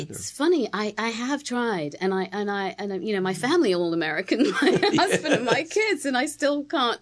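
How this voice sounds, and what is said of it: British accent. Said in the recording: “you still retain this beautiful British accent”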